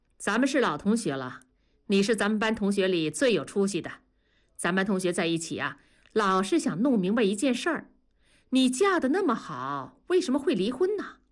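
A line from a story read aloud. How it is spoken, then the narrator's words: Cold. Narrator (Chinese): 小梁盯着李天娇，冷冷地说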